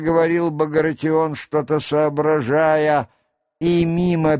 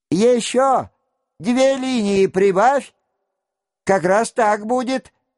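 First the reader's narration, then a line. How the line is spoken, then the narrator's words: Thin voice, forced bravado. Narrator (Russian): закричал он тоненьким голоском, которому он старался придать молодцеватость, не шедшую к его фигуре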